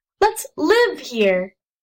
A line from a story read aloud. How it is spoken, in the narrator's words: said Jess sharply